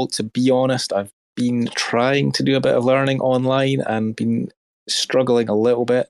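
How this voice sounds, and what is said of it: Strong Scottish accent. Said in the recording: “not maybe as strong as your Scottish”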